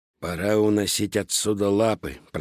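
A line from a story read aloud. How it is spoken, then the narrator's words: Grumbling cat. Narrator (Russian): проворчал черный кот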